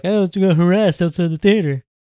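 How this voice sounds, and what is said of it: Poor imitation of another person's voice. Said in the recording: “my terrible Mike Pence impersonation”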